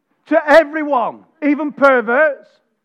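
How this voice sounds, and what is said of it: Shouting loudly. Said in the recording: “Why am I shouting?”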